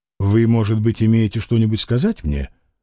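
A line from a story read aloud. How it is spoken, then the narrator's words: Calm question. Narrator (Russian): спокойно спросил Тарас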